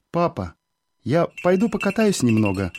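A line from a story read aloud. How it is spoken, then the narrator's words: Timid. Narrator (Russian): робко говорил я отцу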